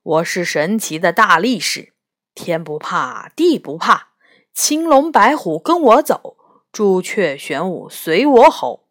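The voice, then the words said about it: Deep, rich strongman character voice. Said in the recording (Chinese): “用浑厚的声音说”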